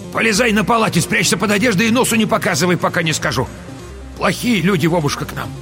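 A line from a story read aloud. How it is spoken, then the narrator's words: Shouted. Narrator (Russian): крикнула внуку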